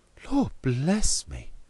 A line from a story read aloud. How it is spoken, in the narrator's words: cried Mr